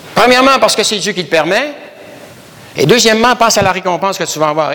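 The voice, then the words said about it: Canadian French accent. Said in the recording (French): “Ils entendent mon accent, ils me disent, « Vous n'êtes pas d'ici, vous. » ... avec l'accent que j'ai ... je viens du Canada”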